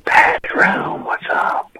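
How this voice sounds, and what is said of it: Whispering. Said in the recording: “Why is he whispering? ... He asked me to whisper.”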